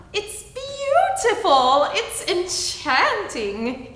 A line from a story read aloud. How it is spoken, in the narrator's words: he cried